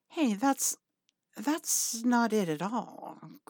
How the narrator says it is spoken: Crowley murmurs

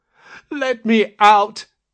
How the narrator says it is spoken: cried again

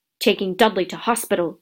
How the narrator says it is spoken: growled Uncle Vernon

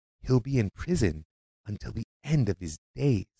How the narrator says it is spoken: one American journalist whisper

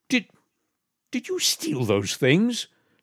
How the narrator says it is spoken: stammered Mr

